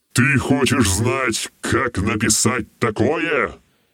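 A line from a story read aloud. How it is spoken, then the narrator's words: Barked. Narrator (Russian): рявкнул он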